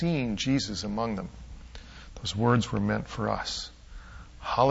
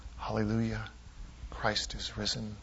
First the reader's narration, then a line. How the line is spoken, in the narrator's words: we whisper back